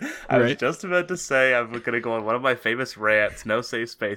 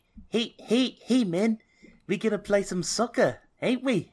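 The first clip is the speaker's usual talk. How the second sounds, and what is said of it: Put-on high-pitched New Zealand accent. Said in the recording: “that's what that accent is ... it's accurate, but all New Zealand accent, like, everyone from New Zealand has a high-pitched voice”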